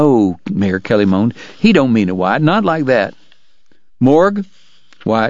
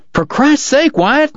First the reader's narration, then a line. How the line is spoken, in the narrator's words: Dog cried